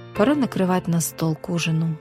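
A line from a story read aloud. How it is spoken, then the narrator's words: Sighing. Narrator (Russian): вздохнула она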